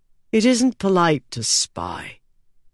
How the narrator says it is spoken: Alucard sighed and said

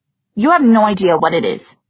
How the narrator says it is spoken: Ty said in a clipped voice

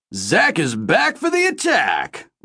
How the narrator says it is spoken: Ray bellowed

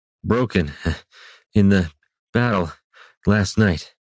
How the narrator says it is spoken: Brannis admitted, puffing out his answer between breaths

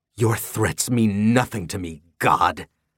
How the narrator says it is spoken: She spat

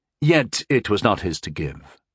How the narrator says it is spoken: I replied calmly

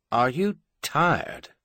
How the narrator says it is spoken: the Emperor asked slowly

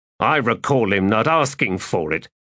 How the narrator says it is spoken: growled Nenanda

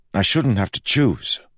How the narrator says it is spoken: he snapped

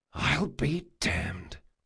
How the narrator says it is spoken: he whispered

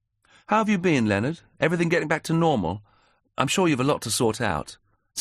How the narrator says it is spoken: said Helen, getting the sensitive subjects out of the way early and gently

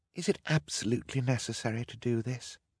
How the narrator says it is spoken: Violet murmured to Klaus

